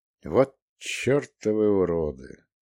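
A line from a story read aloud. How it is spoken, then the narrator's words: Muttered under breath. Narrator (Russian): пробормотал я себе под нос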